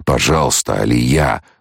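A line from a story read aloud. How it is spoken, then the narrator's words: Muttering. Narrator (Russian): бормотал Кхола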